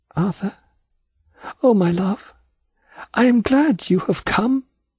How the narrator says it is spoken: whispered softly

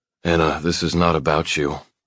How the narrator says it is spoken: Dad mumbles

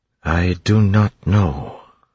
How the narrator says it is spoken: Sazed said slowly

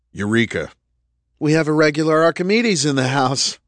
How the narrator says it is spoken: Roland said with a chuckle

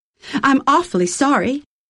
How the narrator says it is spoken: he said in a bright, clear voice with a rising inflection, as if he expected her to say something

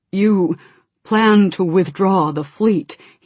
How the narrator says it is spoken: he said, his voice hollow

